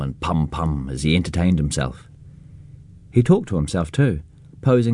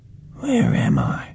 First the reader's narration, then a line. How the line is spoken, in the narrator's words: implored brokenly